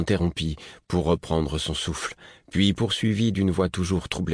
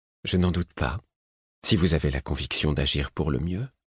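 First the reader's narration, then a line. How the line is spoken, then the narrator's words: Male murmur. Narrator (French): murmura-t-il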